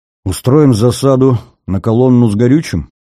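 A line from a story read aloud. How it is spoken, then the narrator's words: Hesitant suggestion. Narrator (Russian): неуверенно предложил Баттахов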